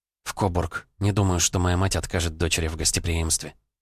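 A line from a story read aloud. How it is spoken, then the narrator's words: Whispered. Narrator (Russian): прошептала Юлия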